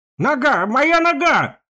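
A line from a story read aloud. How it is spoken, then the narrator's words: Sudden yell. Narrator (Russian): вдруг заорал Вяз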